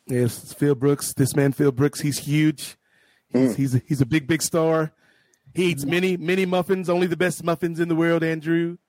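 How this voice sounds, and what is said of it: Imitates another person's voice. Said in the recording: “is that the Trump impression? ... I was trying to do a Trump. ... That was decent. ... I give it a 7 out of 10.”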